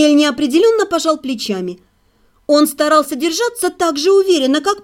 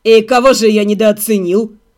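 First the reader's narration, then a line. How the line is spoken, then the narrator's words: Contemptuous snort. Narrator (Russian): презрительно фыркнул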